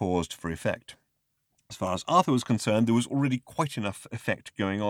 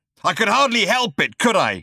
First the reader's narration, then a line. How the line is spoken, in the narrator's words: he bellowed